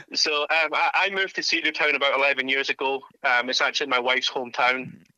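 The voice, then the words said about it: Scottish accent. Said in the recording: “I'm sure you can tell from the accent, I'm not a Georgia native ... when I left Scotland”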